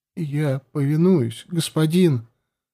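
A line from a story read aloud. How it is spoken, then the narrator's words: Choked, strained reply. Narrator (Russian): сдавленным голосом ответил он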